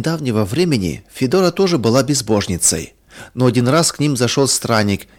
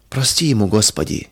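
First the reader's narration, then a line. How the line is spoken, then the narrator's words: Quiet surprised whisper. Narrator (Russian): тихо шептала Федора, удивляясь грубости и черствости мужа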